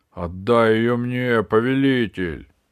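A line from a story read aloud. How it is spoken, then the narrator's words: Creaky voice from cupboard. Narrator (Russian): проскрипел из шкафа клоп небесный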